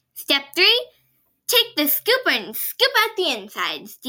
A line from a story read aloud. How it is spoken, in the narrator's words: Demo exclaimed